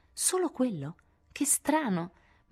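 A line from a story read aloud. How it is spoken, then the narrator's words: Gently surprised exclamation. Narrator (Italian): Sally, non accortasi di nulla, esclamò con gentile sorpresa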